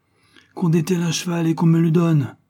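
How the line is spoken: Furious exclamation. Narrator (French): s'écria-t-il hors de lui

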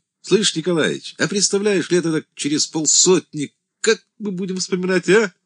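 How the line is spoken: Laughing. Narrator (Russian): хохотал Тарас

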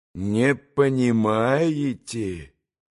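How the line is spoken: Drawn-out reproachful. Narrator (Russian): протянул укоризненно

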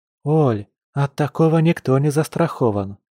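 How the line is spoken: Soft, supportive. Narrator (Russian): мягко произнесла Маша, явно желая поддержать женщину

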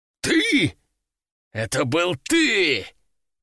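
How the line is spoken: Roaring. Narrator (Russian): Кардиналов взревел

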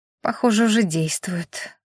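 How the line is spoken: Mumble. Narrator (Russian): пробормотала Рена

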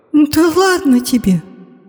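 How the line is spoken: Groan. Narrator (Russian): простонала Медея

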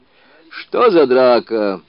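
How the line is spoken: Shouted. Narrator (Russian): крикнул он

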